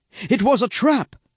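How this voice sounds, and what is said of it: Breathless shouted line. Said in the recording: “someone out of breath”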